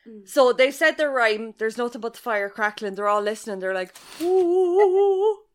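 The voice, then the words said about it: Limerick Irish accent. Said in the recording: “I'm going to read it in my Limerick accent ... my accent, my proper accent, it's just any Limerick man could be saying it”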